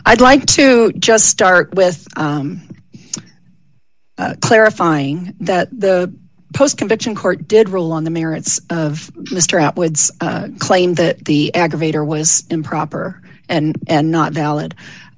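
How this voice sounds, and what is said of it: Weak, recovering voice after illness. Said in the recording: “I'm getting my voice back after having been sick, so I apologize for my voice.”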